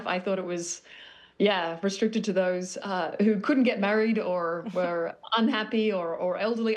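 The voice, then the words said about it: Australian accent. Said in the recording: “I'm not from Brooklyn, but I'm working on my accent, which is clearly failing. I'm originally born Sydney, Australia”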